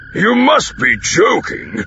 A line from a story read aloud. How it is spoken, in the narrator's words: rumbled